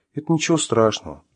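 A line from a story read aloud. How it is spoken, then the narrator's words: Gentle speech. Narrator (Russian): ласково заговорила Маша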